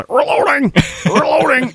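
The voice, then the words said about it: Impression of a video game character. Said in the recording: “did a really good Bill impersonation.”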